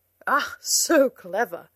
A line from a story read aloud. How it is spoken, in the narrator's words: laughed the knight